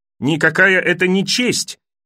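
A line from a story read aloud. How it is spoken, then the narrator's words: Shrill squeal. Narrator (Russian): взвизгнул Джоффри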